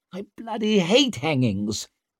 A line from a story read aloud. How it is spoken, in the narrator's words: snapped Orso